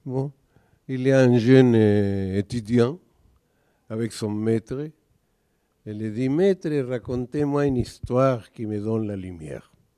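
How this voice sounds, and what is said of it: Noticeable accent in French. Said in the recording (French): “il faut s'habituer à mon accent. Au bout de 2 minutes, vous allez comprendre.”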